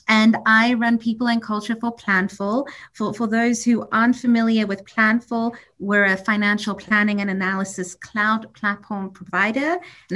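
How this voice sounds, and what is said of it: Mixed, hard-to-place accent. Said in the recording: “a hodgepodge of accents ... the accent thing ... what is that? I can't figure it out.”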